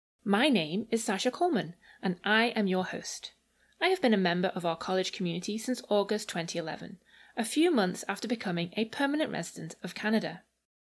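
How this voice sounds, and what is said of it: English Liverpool accent. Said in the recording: “for those trying to place my accent, I am from England, born and raised in Liverpool”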